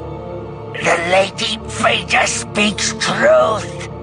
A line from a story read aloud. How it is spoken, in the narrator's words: Kabarak said, his voice taut with the strain of holding back Chewbacca's hands